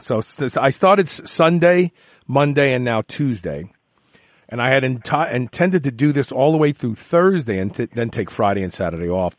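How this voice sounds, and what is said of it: Tired, stuffed-up sounding voice. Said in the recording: “Do I sound tired ... You sound almost like you're stuffed up. You got a head cold or something.”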